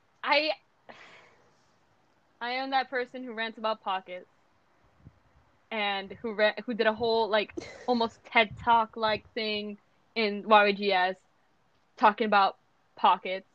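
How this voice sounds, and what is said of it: Spanish accent in English. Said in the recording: “I have a Spanish accent when I speak in English”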